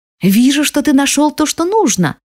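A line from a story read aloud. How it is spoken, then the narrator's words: Joyful. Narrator (Russian): радостно говорит сестра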